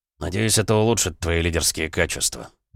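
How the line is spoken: Grumbled. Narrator (Russian): пробурчал он

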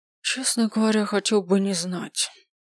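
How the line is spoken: Quiet reply. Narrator (Russian): тихо ответил он

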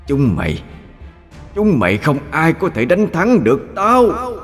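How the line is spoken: Demon's hateful howl. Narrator (Vietnamese): nó gào lên căm tức

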